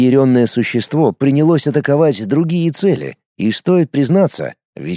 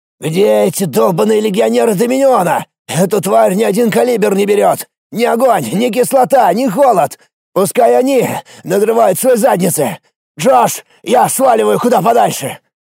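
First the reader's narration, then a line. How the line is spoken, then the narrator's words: Angry yelling soldier. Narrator (Russian): Орал, срывая злость, один из солдат в униформе миротворцев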